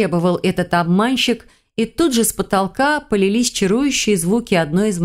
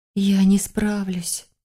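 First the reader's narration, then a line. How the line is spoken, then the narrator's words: Uncertain whisper. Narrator (Russian): прошептала сама, не зная кому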